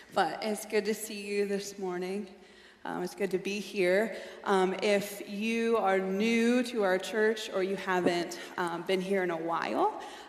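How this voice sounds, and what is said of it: Raspy, slightly hoarse voice. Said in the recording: “my little bit of a raspy voice ... the enemy loves to time preaching in colds ... if I have a little cough or a raspy, weird sounding voice”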